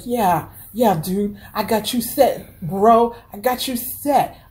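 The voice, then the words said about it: Failed gangster accent, preppy white-kid voice. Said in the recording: “I don't know what accent I'm using here. I was trying to do a gangster accent, but it's coming out as a Biff, you know, white kid accent.”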